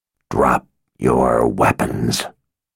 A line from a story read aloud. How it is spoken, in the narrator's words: the man holding the girl growled